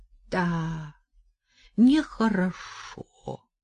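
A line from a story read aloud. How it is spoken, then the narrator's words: Old woman drawling. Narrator (Russian): протянула бабка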